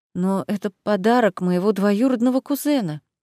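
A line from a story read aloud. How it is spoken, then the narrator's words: Timid protest. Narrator (Russian): робко протестует Амана Войтыш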